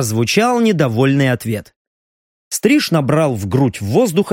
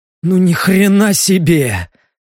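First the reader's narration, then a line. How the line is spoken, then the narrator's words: Bewildered exhale. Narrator (Russian): выдохнул Леха, растерянно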